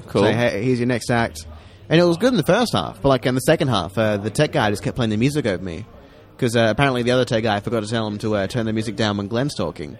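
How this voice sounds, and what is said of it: Impression of a comedian, Rory. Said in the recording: “this is my impression of... I'm doing an impression of Rory. ... Oh, that's pretty good. ... Rory, that's a pretty good impression”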